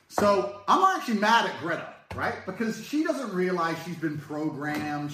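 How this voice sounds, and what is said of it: Fake-sounding British accent. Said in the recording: “that accent, like, that accent is terrible. That sounds like the fake Madonna, like, I'm British, but I'm really from Detroit accent.”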